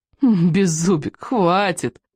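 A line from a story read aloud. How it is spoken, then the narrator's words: Pleading through laughter. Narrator (Russian): взмолился он между приступами хохота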